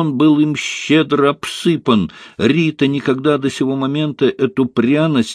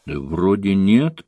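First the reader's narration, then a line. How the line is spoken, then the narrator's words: Mumbling. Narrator (Russian): промямлила я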